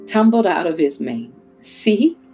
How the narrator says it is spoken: laughed the mouse

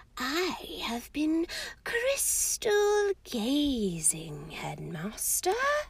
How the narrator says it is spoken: said Professor Trelawney in her mistiest, most faraway voice

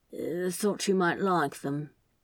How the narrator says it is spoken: he mumbled

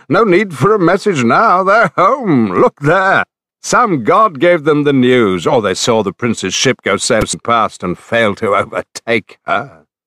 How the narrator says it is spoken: He broke into heady laughter, called

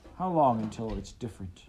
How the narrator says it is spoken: Uncle Wilfred sighed and smiled

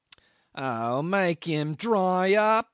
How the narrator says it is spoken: whined the accident case irritably

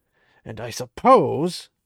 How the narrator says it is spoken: Ran growled

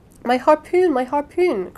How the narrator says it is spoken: cried Ned Land

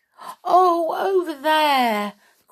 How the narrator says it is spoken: cried Miss Bianca

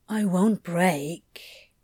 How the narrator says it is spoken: Crowley murmured

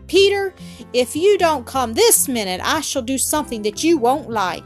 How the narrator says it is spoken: Heidi shouted angrily

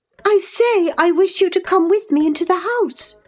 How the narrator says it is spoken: I cried, thinking him deaf, yet highly disgusted at his rudeness

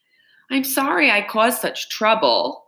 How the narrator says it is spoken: Amanda wailed, starting to enjoy herself

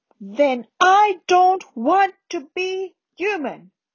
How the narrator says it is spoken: Harry roared

